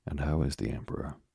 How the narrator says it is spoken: he asked earnestly

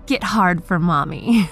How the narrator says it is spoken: laughed Beth

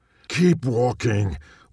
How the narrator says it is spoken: Whisper shouted her dad

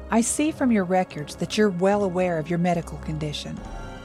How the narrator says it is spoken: he asked

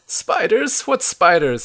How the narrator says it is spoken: you ask, in a panic

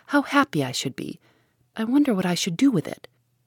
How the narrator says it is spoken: cried Margaret

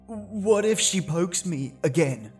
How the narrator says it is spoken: Peter stammered

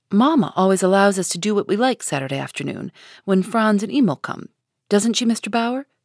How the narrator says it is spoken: said Minnie

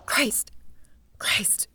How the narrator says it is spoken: Her heart began to pound, she whispered

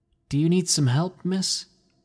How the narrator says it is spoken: I asked nervously

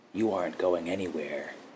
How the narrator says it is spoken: he muttered to her

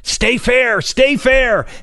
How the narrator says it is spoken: yelled

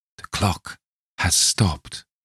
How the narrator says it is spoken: he murmured

